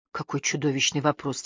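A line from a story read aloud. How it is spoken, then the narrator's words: Quiet muttering. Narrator (Russian): тихо пробормотала Нэн Мейден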